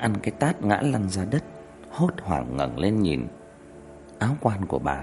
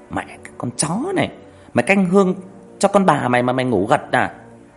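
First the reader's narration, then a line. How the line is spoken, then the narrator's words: Shrill scolding shout. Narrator (Vietnamese): Nó quát lên the thé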